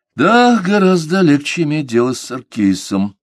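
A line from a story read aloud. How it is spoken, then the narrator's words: Sighing inwardly. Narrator (Russian): вздохнул про себя комиссар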